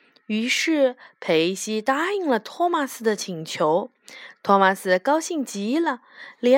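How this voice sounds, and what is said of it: Usual voice. Nothing is said of it.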